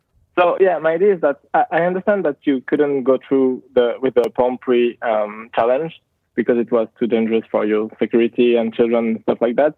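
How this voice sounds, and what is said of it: Swiss accent in English. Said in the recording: “sorry for my accent because obviously I'm from Switzerland ... beautiful ... so much better than my dirty Long Island accent ... I wish all Americans sounded like this”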